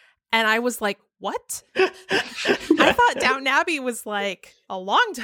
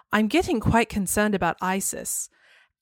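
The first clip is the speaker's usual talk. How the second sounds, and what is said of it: Prim upper-class British accent. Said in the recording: “really prim, proper, like upper class British accent”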